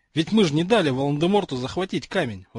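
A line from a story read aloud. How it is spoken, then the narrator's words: Exclaimed. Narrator (Russian): воскликнул Рон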